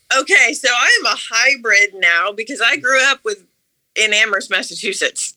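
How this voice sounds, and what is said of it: Slight regional American accent. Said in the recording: “You have a bit of an accent”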